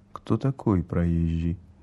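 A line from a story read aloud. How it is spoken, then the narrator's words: Quiet question. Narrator (Russian): спросил тихо у смотрительши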